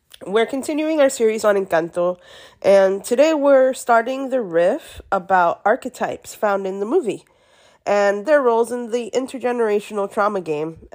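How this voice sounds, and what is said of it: Gravelly, sick-sounding voice. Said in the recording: “excuse my voice. I am a little bit under the weather, so you get to hear me in my whole gravelly sick voice”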